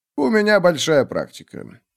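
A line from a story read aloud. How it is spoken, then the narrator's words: Dry reply. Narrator (Russian): сухо ответил он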